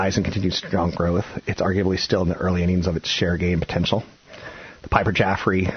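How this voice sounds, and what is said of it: Usual voice. Nothing is said of it.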